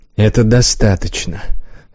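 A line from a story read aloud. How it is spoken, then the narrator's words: Dry. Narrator (Russian): сказал он сухо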